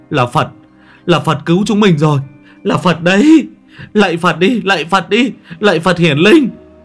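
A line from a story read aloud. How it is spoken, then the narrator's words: Frantic shriek. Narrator (Vietnamese): Thằng Ngọ rú lên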